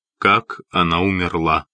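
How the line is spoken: Firm voice, trembling man. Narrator (Russian): спросил он по-прежнему твердым голосом, но Эллен заметила, что Хитклиф дрожит

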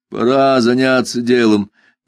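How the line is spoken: Prompt declaration. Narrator (Russian): тут же заявил Джуфин

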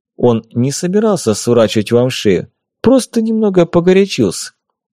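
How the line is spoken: Calm. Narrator (Russian): спокойно сказал Ерема

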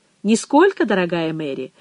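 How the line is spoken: Laughing. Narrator (Russian): Он засмеялся

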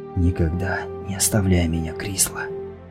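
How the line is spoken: Whispered, mage. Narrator (Russian): прошептал маг

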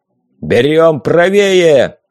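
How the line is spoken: Booming bark. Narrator (Russian): Гулко рявкнул Рагнар

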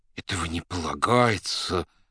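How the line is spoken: Mumbling. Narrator (Russian): бормотал

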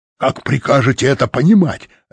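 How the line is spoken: Barking. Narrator (Russian): рявкнул он

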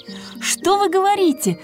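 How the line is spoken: Exclaiming. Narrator (Russian): воскликнула Герда

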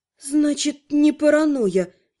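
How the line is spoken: Gloomy sigh. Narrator (Russian): некромантка уныло вздохнула

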